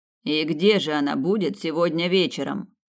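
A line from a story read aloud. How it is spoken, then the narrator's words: Grumbling. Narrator (Russian): пробурчал Снейдер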